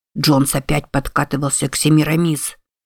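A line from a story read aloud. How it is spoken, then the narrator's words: Whisper. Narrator (Russian): прошептал Каффи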